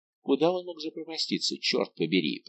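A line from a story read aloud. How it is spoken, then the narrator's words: Muttered. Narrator (Russian): пробормотал Д'Артаньян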